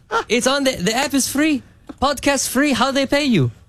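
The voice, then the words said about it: Put-on accent imitating a father. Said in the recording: “My dad doesn't have an accent. It's just funnier for the story.”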